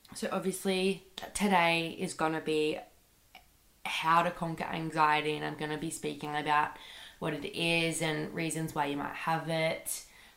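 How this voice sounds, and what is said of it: Sick, congested voice. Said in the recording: “my voice sounds a bit weird. I'm really sick... I think I just have like a really bad cold”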